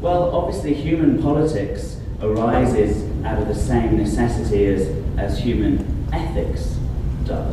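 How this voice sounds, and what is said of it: British accent. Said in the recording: “people will mainly be listening just to my accent”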